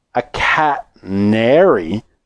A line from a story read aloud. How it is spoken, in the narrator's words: said Jill slowly